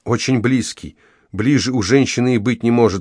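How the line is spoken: Sorrowful exclamation. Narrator (Russian): горестно воскликнула Энни

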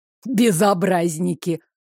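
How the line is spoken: Good-natured chuckle. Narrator (Russian): Беззлобно хмыкнул Кривсун

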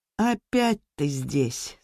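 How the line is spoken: Tired. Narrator (Russian): сказал устало Лермонтов

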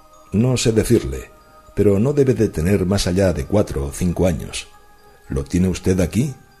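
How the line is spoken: Firm voice. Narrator (Spanish): El marino exhaló un largo suspiro, con el aire de un hombre aligerado de una intolerable carga, y después contestó con voz firme

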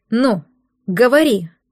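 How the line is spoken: Forced out, teeth chattering. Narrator (Russian): У девчонки клацнули зубы, она выдавила

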